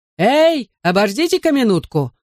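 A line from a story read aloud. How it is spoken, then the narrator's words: Shouted after them. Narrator (Russian): закричал им в спину почтальон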